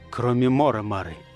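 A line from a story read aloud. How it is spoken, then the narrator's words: Quiet report. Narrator (Russian): тихо отрапортовал Манкин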